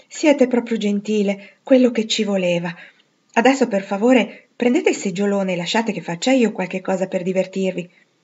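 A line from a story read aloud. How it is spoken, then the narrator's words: Satisfied sigh. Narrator (Italian): egli con un sospiro di soddisfazione, dicendo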